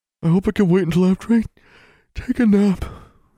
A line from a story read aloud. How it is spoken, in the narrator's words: Alexandra said with a yawn